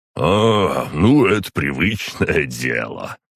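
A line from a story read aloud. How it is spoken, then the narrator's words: Chuckling. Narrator (Russian): хохотнул Ророгов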